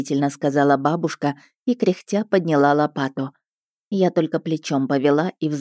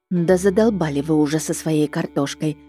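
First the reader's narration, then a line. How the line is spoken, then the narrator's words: Muttering under breath. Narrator (Russian): бурчала я себе под нос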